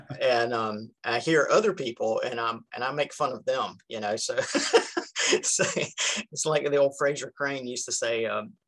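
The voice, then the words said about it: Southern American accent. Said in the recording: “You got that Southern accent that already makes everybody feel warm and fuzzy.”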